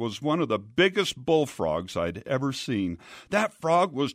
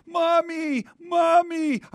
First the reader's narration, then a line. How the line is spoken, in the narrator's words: cried